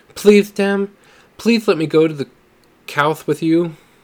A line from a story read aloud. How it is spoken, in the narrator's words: he begged, his lisp somewhat exaggerated due to his excitement